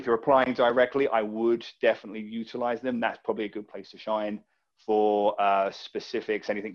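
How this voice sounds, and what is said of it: Sounds like an Australian accent. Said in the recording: “People think I'm Australian. ... Oh, you actually do sound like that.”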